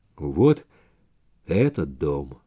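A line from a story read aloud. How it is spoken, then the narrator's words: Flat, colorless voice. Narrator (Russian): сказал Баннерман каким-то бесцветным голосом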